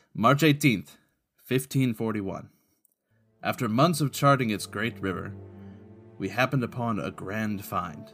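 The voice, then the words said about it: Deliberately bad Spanish accent. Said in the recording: “I'm going to read them in a terrible Spanish accent.”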